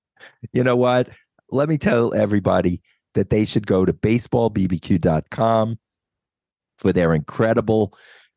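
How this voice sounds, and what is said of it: Sick-sounding voice. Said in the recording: “I'm a little under the weather. You can obviously hear it in my voice.”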